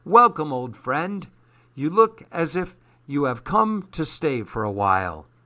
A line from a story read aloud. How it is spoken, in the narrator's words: cried Morelli